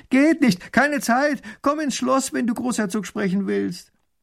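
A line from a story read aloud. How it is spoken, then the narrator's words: Calling back. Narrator (German): Erich ruft zurück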